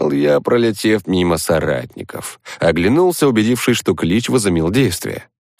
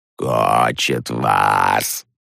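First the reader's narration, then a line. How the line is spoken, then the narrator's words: Creaky voice. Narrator (Russian): Проскрипела одна из них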